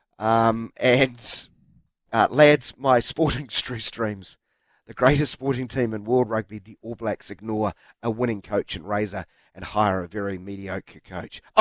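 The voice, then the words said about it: Hoarse, strained voice. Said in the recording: “I'm getting a bit hoarse now.”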